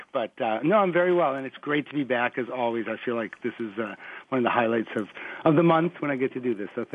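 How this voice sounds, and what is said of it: Rough, under-the-weather voice. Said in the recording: “I don't have my radio voice today. I'm still getting over the last cold of the week.”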